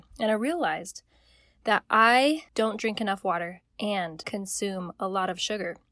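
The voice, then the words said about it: Slightly croaky throaty voice. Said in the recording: “I always have a frog in my throat”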